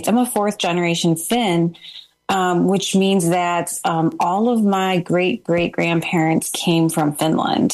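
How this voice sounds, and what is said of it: American accent. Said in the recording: “we're obviously pretty American, as you can hear from my accent.”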